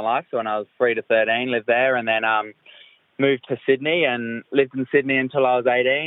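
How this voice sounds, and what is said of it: London English accent. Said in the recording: “I lived in London, hence the accent”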